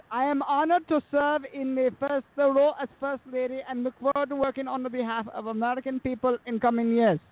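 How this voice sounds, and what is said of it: Weak Melania Trump accent impression. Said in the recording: “Bro, you really gotta work on your accent. ... I know. I mean, especially hers. ... Melania Trump.”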